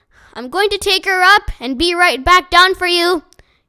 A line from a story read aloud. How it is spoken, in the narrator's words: he shouted in Josh's ear